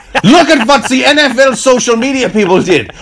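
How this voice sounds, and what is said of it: Bad put-on accent sounding German. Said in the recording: “why is my accent German? Why is ... so bad at doing accents?”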